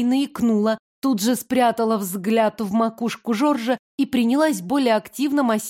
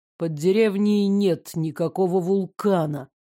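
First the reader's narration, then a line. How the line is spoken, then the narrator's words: Through gritted teeth. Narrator (Russian): сквозь зубы проговорил Карен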